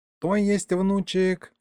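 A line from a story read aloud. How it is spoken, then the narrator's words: Sigh. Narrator (Russian): вздохнул Егорыч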